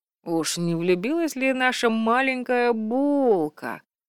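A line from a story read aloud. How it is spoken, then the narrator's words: Teasing drawl. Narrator (Russian): протянул Вальдекриз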